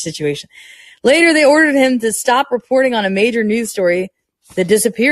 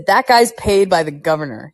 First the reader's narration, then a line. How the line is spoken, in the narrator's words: he said